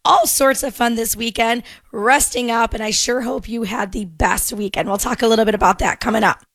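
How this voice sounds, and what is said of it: Strained, partly lost voice. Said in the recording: “My voice is a little strained today ... I lost it”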